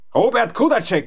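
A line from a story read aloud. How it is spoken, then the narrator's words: Calling out. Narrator (German): rief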